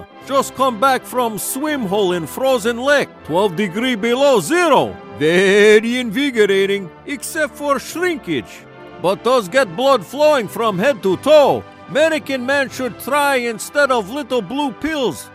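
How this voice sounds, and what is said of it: Put-on Russian accent. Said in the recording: “He uses a Russian accent, so it's called Russia.”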